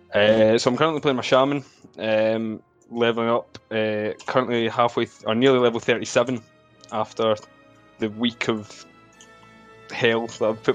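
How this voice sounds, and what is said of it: Thick Scottish accent. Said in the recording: “you're Scottish ... somebody with a thicker accent than me”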